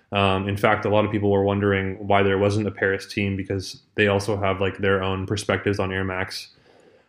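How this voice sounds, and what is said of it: Canadian English accent. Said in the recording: “he is also from Canada. I don't know if you heard that from his accent. He's from Vancouver. ... I could tell, actually. I could. I was like, is he American or Canadian? I was leaning more on the Canadian side.”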